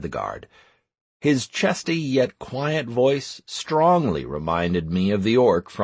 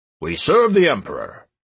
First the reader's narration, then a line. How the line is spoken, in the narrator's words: barked the guards